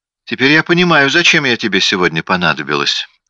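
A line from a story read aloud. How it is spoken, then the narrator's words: Plain. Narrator (Russian): сказала она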